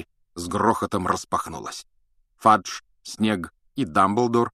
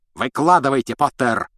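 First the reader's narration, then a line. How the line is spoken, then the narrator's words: Roar. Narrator (Russian): взревел он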